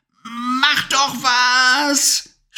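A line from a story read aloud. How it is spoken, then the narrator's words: Shouting at someone. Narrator (German): schrie Levi die Hexe an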